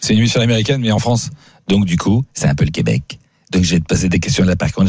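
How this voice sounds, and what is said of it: Usual voice. Nothing is said of it.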